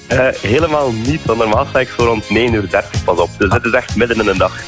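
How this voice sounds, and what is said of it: West Flemish Dutch accent. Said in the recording (Dutch): “die klinkt al bijzonder fruitig. Bespeur ik daar een West-Vlaams accent ... Absoluut, een trotse West-Vlaming hier.”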